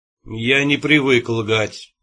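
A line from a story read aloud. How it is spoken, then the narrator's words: Cold. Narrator (Russian): сказал он холодно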